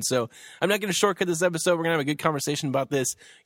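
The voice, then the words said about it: Talking really fast, excited. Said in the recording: “I'm talking really fast because I'm really excited”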